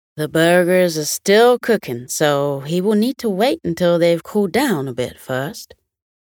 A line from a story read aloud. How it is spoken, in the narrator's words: Young chuckled and replied